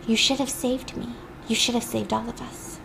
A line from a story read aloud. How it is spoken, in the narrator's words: she starts whispering